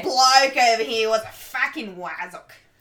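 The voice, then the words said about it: Put-on British accent sounding Australian. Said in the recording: “I did realize that I'm sounding Australian more than I am British”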